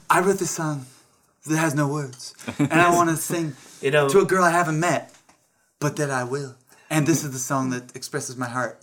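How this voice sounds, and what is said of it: Imitates another person's voice. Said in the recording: “I was doing an impression of it”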